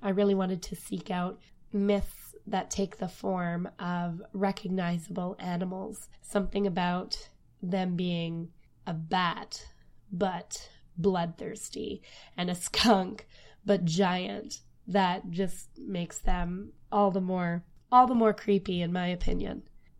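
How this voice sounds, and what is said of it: Voice worn down, sick-sounding. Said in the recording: “I'm not sure if you can hear it in my voice, but I'm somehow battling a cold again ... before my voice goes”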